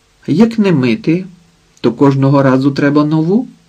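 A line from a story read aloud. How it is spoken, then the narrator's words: Calm answer. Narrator (Ukrainian): відповів спокійно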